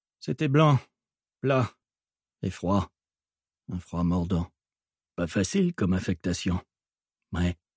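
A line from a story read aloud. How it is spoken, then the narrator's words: Muttered. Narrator (French): marmonna Connor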